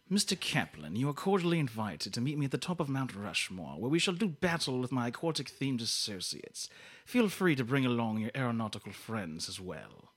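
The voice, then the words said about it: Put-on theatrical accent. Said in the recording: “once you went into that accent, I just got lost in the accent”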